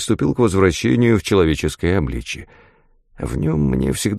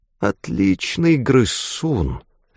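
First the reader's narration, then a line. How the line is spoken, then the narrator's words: Hissing. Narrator (Russian): прошипела Глайд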